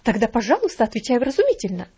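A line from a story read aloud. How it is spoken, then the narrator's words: Exclamation. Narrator (Russian): воскликнула гувернантка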